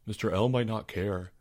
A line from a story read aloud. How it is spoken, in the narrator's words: mumbled Albert